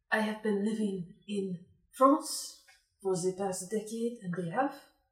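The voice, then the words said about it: Put-on French accent. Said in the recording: “Where'd you get your accent from?”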